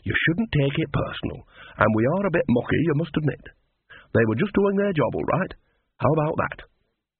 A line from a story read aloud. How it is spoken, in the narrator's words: said Annie soothingly